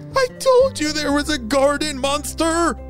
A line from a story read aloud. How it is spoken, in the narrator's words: shrieked Sam